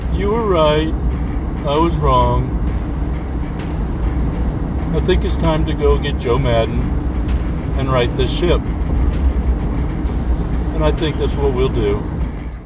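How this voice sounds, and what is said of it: Impression of John Lock. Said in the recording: “his John lock impression... He did a good job there. He, he gave it his all.”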